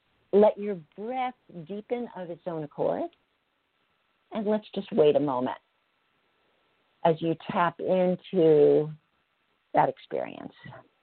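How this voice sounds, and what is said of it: Lowered, calmer voice. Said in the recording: “you can hear it in my voice. My voice has dropped down ... that kind of elevated my nervous system, and now it's dropped down”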